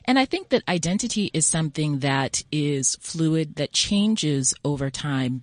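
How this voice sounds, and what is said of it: American accent. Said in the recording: “Listening to my accent, you can probably tell I grew up in the U.S.”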